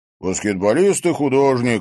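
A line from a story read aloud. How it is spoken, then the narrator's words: Snort. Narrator (Russian): хмыкнул Димка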